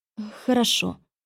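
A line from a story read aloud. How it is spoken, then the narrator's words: Timid, smiling witch. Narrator (Russian): робко улыбнулась ведьма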